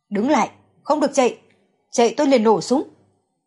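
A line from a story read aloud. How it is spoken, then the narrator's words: Loud shout. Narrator (Vietnamese): Giang Lâm Nhất lớn tiếng kêu lên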